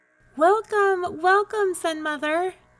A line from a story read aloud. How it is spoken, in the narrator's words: the animals cried joyously